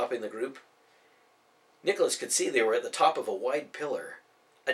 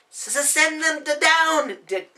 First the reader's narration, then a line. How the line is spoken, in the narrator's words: Daniel yelled from somewhere beyond, his voice echoing in the chamber